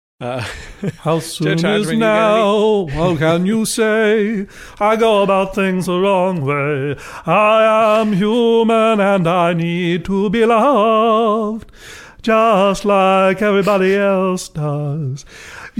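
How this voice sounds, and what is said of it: Poor imitation of a singer's voice. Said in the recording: “terrible Morrissey impersonation”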